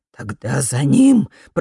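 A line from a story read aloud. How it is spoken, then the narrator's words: Hoarse rasp. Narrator (Russian): прохрипел Фолькер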